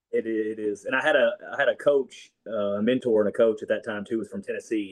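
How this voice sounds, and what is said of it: Strong Arkansas Southern accent. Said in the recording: “everybody I talk to, it's very strong ... I think I picked it up ... just Arkansas people in general”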